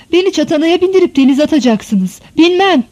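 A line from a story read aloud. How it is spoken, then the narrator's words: Shouted. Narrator (Turkish): diye bağırmış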